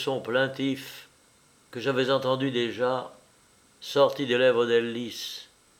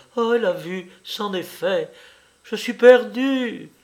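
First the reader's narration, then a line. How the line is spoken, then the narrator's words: Crying out through broken sobs. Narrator (French): s'écriait-elle au milieu de sanglots entrecoupés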